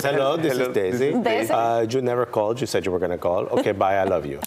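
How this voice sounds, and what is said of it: Older Latin woman's accent. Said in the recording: “this old Latin woman ... has hints of Messi. ... It's a very similar accent.”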